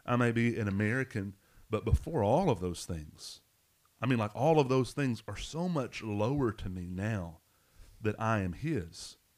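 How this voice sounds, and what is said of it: Deep Arkansas twang. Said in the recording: “that Arkansas, you know, you can hear my deep twang here on the on the microphone”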